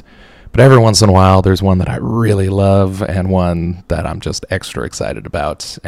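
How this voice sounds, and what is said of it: Flat monotone voice. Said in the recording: “You can tell by how jubilant my voice is, can't you? It's, uh, it's hard being so monotone”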